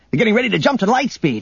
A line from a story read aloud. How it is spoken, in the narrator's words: Han shouted